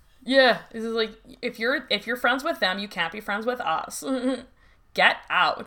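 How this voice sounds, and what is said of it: Put-on Valley Girl accent. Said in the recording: “the Valley Girl accent ... California Valley Girl”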